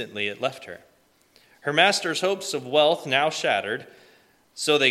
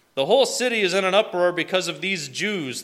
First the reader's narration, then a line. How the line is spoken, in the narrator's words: they shouted to the city officials